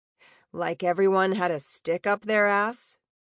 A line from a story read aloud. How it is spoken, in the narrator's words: Ember chuckled wryly